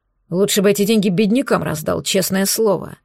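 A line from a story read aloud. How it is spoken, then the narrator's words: Annoyed grumble. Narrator (Russian): раздосадованно пробурчал он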